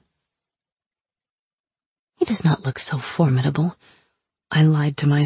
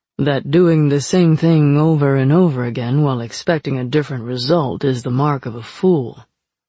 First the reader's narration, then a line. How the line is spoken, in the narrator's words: Fox drawled from the shadows